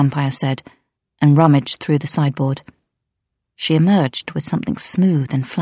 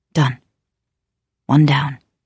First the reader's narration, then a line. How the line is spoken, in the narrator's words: Flick murmured